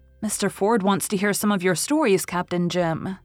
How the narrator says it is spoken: said Anne

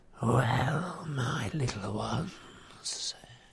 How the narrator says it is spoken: said Grishnak in a soft whisper

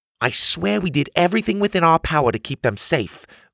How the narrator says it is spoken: Grandma piped in

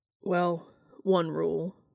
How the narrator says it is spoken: Dean continued grimly

